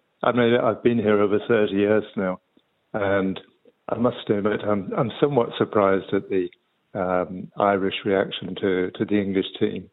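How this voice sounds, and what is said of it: English accent. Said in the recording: “obviously by my accent, it would be strange for me not to be supporting England”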